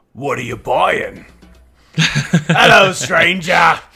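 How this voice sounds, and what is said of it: Good impression of the merchant. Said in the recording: “Oh, that's a really good impression. ... the merchant”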